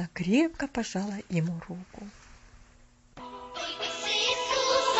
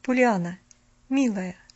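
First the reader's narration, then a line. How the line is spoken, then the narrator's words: Gentle, affectionate. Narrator (Russian): ласково начала она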